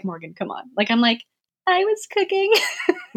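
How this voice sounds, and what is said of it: Small, timid voice. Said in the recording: “in my little voice”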